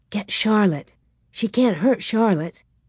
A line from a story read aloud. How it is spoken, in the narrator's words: Mary whispered